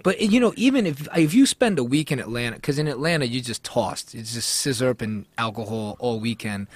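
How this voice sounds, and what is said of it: Brooklyn-sounding New York accent. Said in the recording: “it is what I've always sounded like this... "You from Brooklyn?"”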